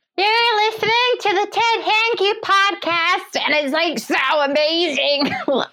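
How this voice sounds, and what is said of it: Imitates another person's voice. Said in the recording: “in her voice ... Yes, it was like she was here ... It's a great impression, that.”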